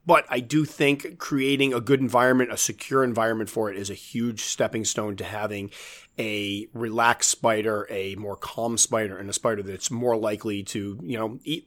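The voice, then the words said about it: Hoarse, fading voice. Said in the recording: “I'm actually losing my voice”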